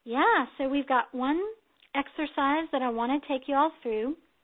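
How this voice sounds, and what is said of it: Southern American accent. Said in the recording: “did my southern accent come out there, y'all?”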